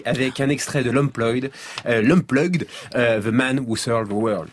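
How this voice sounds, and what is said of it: Heavily accented English pronunciation. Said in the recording (French): “t'es le seul mec qui a un accent encore pire que le mien”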